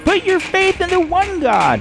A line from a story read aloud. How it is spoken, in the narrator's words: a woman screamed